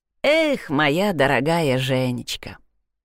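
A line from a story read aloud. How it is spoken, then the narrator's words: Sigh with tongue clicks. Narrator (Russian): вздохнула Элиза, цокая языком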